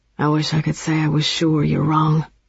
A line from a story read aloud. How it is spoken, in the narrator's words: he said quietly